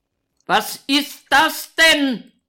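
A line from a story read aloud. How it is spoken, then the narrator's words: Overly loud shout. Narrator (German): schreit er überlaut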